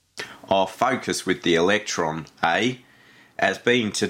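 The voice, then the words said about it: Attempted New Zealand accent, sounds Australian. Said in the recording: “You do a New Zealand accent... This is Australian.”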